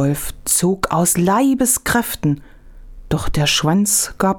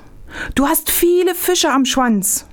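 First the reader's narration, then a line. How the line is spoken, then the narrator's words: Fox calling out. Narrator (German): rief der Fuchs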